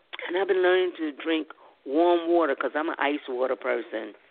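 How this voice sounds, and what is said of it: Hoarse, strained voice. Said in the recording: “I'm losing my voice. ... The more I talk, my mouth gets dry.”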